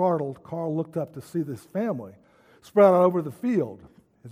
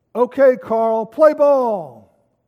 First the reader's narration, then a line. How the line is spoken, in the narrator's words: Suddenly someone yelled